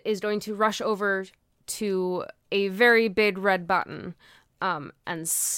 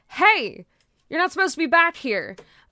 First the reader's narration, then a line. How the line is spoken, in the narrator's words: he shouts out